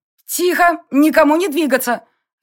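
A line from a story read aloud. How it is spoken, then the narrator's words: Barking command. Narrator (Russian): рявкнула я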